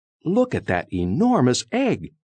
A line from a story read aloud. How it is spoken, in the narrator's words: Etabetta exclaimed